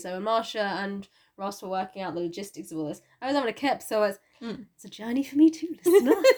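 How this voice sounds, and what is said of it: Unwell, poorly-sounding voice. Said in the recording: “as you might be able to tell from my voice, I'm a bit poorly”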